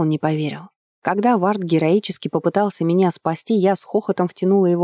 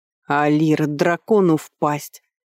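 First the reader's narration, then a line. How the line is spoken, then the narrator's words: Menacing growl. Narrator (Russian): грозно рыкнул Вард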